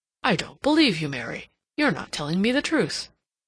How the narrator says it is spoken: he exclaimed

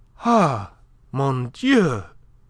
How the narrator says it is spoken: she cried out

